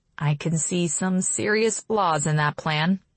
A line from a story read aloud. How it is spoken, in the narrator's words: I mutter